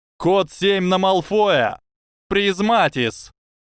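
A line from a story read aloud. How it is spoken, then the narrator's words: Shouting. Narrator (Russian): крикнула Падма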